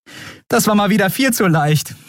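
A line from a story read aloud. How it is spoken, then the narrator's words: Laughing. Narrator (German): sagte sie lachend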